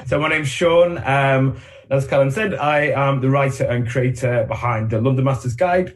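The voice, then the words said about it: Northern English accent. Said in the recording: “I've got a northern accent”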